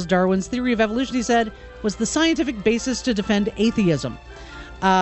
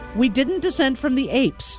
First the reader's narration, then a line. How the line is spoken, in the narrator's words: told the giggling youngsters